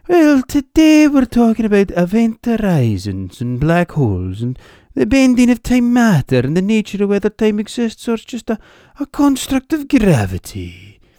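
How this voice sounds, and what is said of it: Brian Cox in Hebridean accent. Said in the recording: “Even Professor Brian Cox would sound a wee bit daft if he talked with a Hebridean accent ... I do love that Lewis accent”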